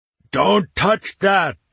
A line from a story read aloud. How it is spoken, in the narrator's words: yelled